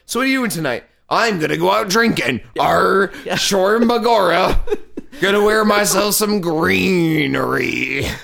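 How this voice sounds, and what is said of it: Pirate-like put-on Irish accent. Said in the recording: “whenever I do an Irish accent ... Irish pirate accent ... You just sound like an angry pirate passing a kidney stone.”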